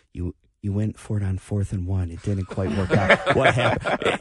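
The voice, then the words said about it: Somber, careful reporter voice. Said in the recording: “my somber post-game, trying not to upset the coach impression”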